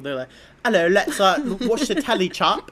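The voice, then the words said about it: Mock British accent. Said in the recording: “accents ... how did British people”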